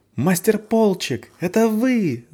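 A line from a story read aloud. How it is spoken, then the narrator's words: Yelling. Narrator (Russian): завопила Валь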